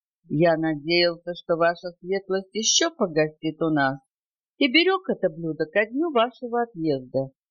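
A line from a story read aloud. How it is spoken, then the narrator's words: Completely calm. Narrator (Russian): Он скоро оправился и проговорил совершенно спокойно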